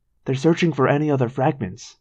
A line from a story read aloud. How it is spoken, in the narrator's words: I whispered